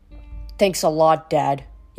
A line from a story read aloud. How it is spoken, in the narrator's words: he grumbled